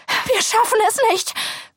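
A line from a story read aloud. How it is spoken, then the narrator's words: Panting. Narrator (German): keuche ich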